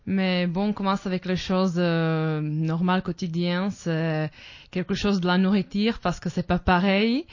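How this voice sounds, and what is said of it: Slavic accent speaking French. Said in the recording (French): “ton accent, c'est à peu près langue slave”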